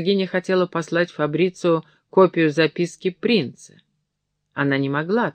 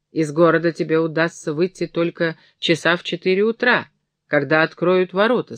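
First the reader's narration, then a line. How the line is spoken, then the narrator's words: Plain. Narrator (Russian): сказала она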